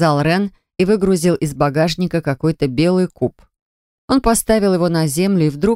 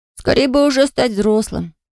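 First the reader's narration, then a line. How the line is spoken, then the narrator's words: Sighing. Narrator (Russian): вздохнул Энтай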